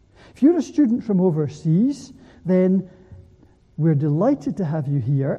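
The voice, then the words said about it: Scottish accent, fairly fast speech. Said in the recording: “me speaking in English, maybe too fast, with a Scottish accent”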